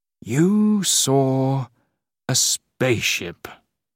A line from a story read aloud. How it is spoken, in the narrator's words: he said slowly